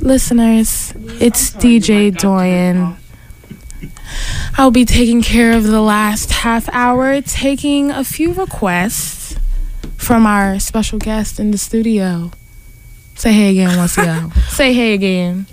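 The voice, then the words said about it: Sensual, seductive late-night radio voice. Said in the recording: “my radio voice ... Sensual and seductive. ... It's perfect fake. For 3 in the morning.”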